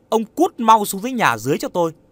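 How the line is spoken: Loud angry shout. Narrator (Vietnamese): bà vợ quát lớn

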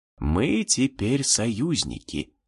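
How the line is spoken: Languid whisper. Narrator (Russian): томным шепотом возвестил демон

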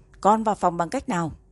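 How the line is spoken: Angry loud shout. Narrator (Vietnamese): Tề Mặc mặt đen xì quát lớn

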